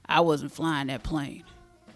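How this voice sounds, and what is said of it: Calm imitation of another person's voice. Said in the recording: “do a Denzel Washington impression ... the characteristics of a Denzel Washington voice ... like calm”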